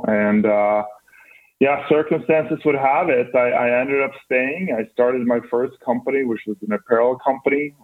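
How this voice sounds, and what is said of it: Faint Norwegian accent. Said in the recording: “a faint accent here. I'm originally from Norway.”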